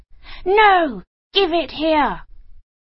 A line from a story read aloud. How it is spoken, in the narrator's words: cried the other